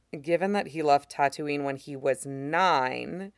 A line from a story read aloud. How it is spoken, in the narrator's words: he says dryly